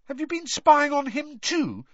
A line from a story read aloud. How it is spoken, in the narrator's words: said Harry indignantly